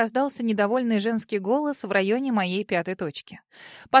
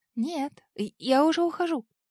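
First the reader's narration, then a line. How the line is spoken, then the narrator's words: Squeak. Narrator (Russian): пискнула я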